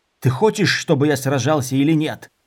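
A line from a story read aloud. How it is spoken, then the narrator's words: Growl. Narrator (Russian): зарычал Дорин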